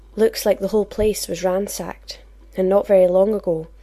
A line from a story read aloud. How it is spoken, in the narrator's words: she commented grimly